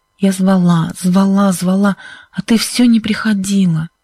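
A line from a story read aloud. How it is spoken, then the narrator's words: Hoarse. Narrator (Russian): сказала Сьюзен хриплым голосом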